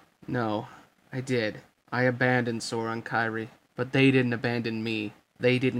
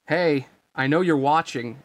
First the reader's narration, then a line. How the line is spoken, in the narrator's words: Riku called out